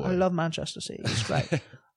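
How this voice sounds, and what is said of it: Put-on British accent. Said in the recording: “he speaks with a sweet-ass British accent ... impression”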